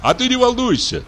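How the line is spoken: Laughing. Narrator (Russian): засмеялся зоолог

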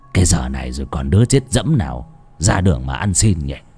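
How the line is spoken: Doubtful muttering. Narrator (Vietnamese): Bán tín bán nghi, lão lẩm bẩm

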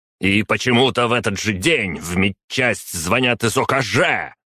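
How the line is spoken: Barking. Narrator (Russian): рявкнул ректор

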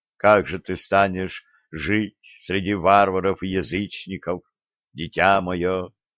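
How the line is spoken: Sighing confessor. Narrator (Russian): вздохнул ее духовник Никифор

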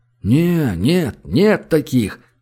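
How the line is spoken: Clamoring crowd. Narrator (Russian): загомонила толпа

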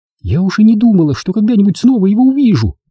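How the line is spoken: Exclaiming. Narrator (Russian): воскликнула Рен

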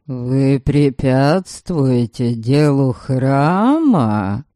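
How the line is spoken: Increasingly hissing voice. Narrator (Russian): Шипение в голосе храмовника моего тёзки прибавляется

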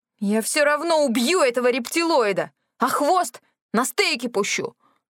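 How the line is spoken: Howling wail. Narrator (Russian): взвыла

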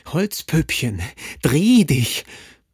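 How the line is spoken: Terrible repeated scream. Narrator (German): Der schrie mit fürchterlicher Stimme immerfort

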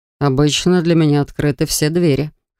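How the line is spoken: Smug snort. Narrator (Russian): хмыкнул он

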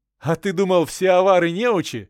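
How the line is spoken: Laughing. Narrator (Russian): вновь засмеялся я

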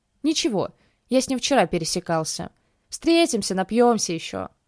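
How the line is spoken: Snort. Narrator (Russian): хмыкнул я

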